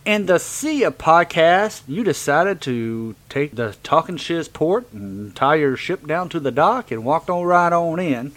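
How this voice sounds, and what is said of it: Southern accent. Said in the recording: “That was very, very southern of me. ... that was, uh, southern.”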